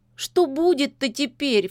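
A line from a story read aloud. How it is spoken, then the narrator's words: Sobbing. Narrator (Russian): всхлипнула Лизонька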